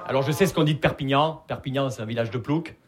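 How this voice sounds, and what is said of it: Southern French accent from Perpignan. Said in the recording (French): “Vous l'entendez à mon accent, je viens pas de Paris. Je viens de Perpignan.”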